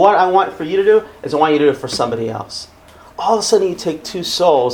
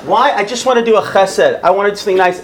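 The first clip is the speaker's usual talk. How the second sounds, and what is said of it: Put-on Israeli accent. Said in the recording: “I'm trying to put on my Israeli accent.”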